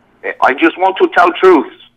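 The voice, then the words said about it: Imitation of another man's voice. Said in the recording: “pretty good Dennis imitation”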